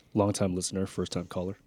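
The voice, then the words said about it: Deliberately deep, sultry radio voice. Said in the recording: “your voice seems so much lower when it's going through a microphone ... He's doing that on purpose ... The radio voice ... He's doing a sexy voice.”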